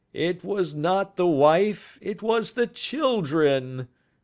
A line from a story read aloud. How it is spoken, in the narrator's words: groaned the prisoner